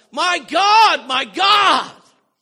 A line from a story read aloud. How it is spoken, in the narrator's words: he cried out